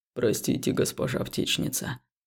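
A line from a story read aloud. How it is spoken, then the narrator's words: Deep, sincere, slightly embarrassed. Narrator (Russian): пробасил он искренне и чуть смущенно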